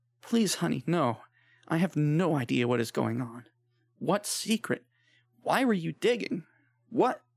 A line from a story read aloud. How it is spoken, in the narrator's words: A loud sob from deep within her cut off her words, and she choked on her tears